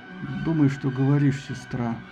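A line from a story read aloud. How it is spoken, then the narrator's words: Grumbling reply. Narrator (Russian): проворчал в ответ Посейдон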